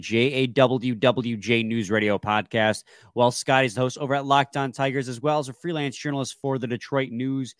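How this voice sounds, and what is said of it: Stuffy, congested voice. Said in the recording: “if I sound a little stuffy or congested or my voice sounds funny. Coming down with a little bit of a cold”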